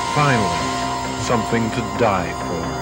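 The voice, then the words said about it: Very bored movie-trailer narration. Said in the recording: “the most bored trailer voice, man, I've ever heard in my life”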